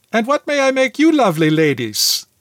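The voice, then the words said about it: Heavy Greek accent, chirpy. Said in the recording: “In her heavy Greek accent, she chirped”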